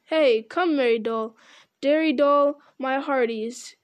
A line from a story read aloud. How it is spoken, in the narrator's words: he cried